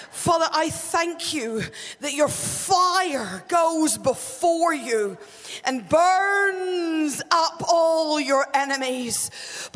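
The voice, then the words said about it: Irish accent. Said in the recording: “this accent is Irish”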